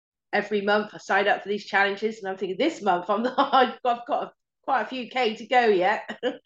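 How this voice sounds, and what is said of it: Unwell voice with occasional coughing. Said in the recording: “I'm not 100%. I don't know if you can hear it in my voice. ... Yeah, I can. And you're sort of coughing every now and then.”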